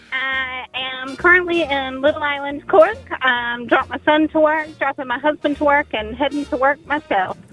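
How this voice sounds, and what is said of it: Georgia American accent. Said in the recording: “an accent. ... Wow, that's a great accent.”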